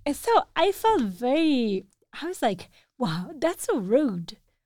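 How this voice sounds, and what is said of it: Strong accent in English. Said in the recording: “whoa, you have a strong accent ... I have some difficult words in English that I can't pronounce”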